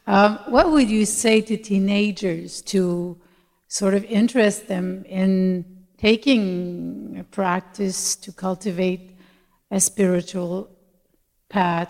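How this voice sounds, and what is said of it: Québécois French-Canadian accent. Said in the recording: “I'm from Montreal, so sorry mm. for my accent. Québécois.”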